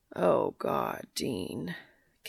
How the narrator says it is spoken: Cass moans

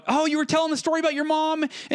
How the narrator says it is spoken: they started shouting out

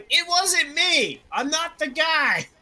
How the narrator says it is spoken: he began yelling

